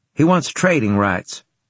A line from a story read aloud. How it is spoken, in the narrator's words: I said quickly